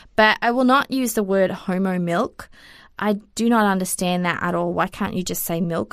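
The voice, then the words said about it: Australian accent. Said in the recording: “if I went back to Australia ... I don't think I pronounce any of the words properly just because of my accent.”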